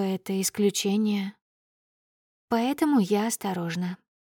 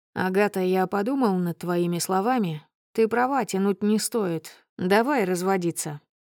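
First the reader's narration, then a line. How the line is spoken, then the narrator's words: Casual tone. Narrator (Russian): сообщает мне будничным тоном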